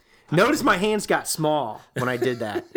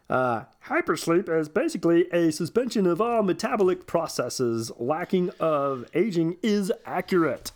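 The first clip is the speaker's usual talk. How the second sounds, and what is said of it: Imitates a scientist's voice. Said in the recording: “my scientist Dev impersonation”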